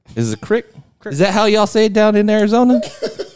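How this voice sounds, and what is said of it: Put-on Texas accent. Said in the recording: “They like your accent. Good. Come on, dog. You're from Texas... only be a Texas accent... I never really done a Texas accent that much before.”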